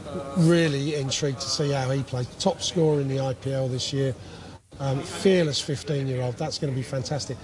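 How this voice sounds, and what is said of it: Strained, fading voice. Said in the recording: “my voice is going a bit”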